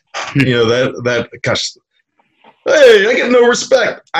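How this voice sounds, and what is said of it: Poor imitation of another person's voice. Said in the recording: “I'm horrible at imitation, so that's the best you're gonna get”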